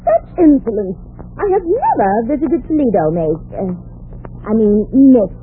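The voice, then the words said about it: Strained affected accent. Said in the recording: “Don't strain your accent, honey.”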